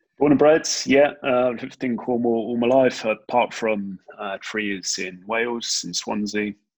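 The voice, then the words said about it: Slightly toned down Cornish accent. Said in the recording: “a guy with a slightly toned down Cornish accent”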